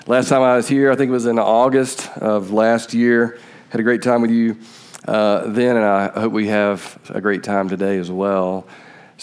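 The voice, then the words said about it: Southern US Georgia accent. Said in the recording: “I know that you're very surprised with my accent that I'm from Georgia”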